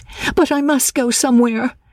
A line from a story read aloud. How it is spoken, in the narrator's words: she cried